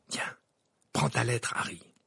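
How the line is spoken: Half-voiced. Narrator (French): ajouta Ron à mi-voix

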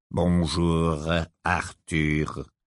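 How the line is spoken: Sepulchral voice. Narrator (French): dit-il d'une voix sépulcrale

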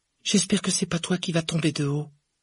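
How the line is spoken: Sighing. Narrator (French): soupira Hermione

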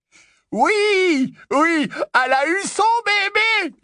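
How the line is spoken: Yelling. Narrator (French): hurla Lupin

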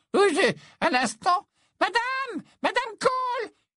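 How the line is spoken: Shouted over her shoulder. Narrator (French): cria-t-elle par-dessus son épaule

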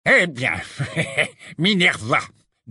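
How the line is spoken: Nasty tone. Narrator (French): dit enfin Fudge d'un ton mauvais

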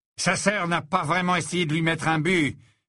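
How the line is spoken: Menacing voice. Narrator (French): dit McLaggen d'une voix menaçante

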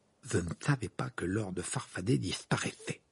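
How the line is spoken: Muttering. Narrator (French): marmonna Ron

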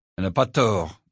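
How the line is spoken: Mumbled. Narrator (French): marmonna Harry

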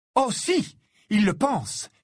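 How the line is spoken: Angry exclamation. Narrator (French): s'exclama Ginny en s'emportant cette fois contre Harry

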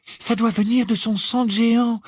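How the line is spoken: Trembling voice. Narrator (French): expliqua Hermione d'une voix tremblante

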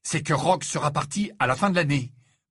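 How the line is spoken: Fierce tone. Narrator (French): déclara-t-il d'un ton féroce

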